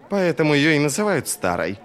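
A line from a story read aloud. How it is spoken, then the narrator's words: Snorting. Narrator (Russian): фыркнул Джизаль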